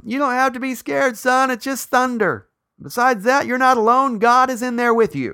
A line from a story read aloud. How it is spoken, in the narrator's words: his dad, not wanting to get out of bed, hollered back to him